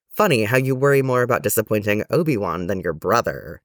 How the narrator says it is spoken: he said

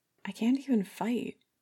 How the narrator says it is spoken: he breathed

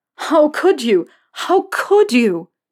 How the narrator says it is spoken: Potter ... screaming at him

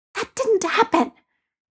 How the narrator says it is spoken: Peter hissed at Ned

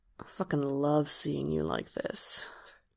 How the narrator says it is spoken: Hob murmurs

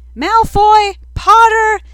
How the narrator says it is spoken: someone shrieked

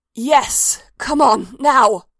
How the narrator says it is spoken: she was shouting in his ear

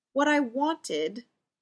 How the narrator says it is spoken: Ray stammers

